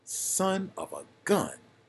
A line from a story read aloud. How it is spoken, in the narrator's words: he exclaimed